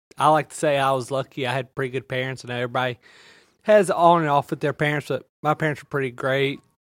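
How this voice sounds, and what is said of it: Thick Southern Louisiana accent. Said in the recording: “Louisiana. ... That accent's real thick”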